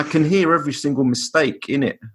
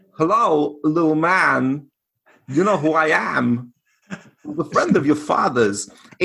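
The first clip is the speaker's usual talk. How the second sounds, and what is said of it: Christopher Walken impression. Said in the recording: “the one voice that I would love to be able to do, Christopher Walken ... It sounds like Christopher Walken, but it's not a good impression.”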